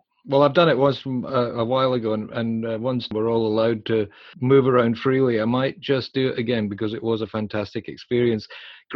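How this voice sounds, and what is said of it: Rough Scottish brogue. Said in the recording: “It's a bit rough, that Scottish brogue”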